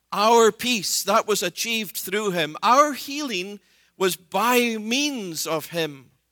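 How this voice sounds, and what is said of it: Scottish accent. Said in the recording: “an accent that you sometimes hear in my voice ... it's not unusual for Scottish people to talk about sheep”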